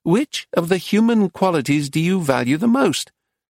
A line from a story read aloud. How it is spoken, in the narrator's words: asked in a squeaky voice